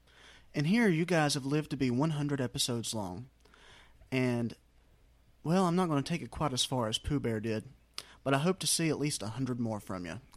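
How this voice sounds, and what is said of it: Smooth, soothing accented voice. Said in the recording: “He could have the greatest accent I've ever heard in my life. ... It's buttery. ... It's soothing. It's soothing. He never raises his voice.”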